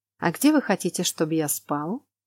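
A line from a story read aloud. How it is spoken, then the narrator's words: Calm, man. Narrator (Russian): Спокойно уточнил мужчина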